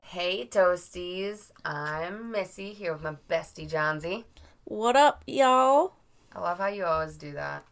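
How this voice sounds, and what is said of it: Raspy, hoarse voice. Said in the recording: “I'm raspy, guys. Um, it's gonna be like this for a while. It's allergy season. This is just this is just my voice... it's a sexy voice”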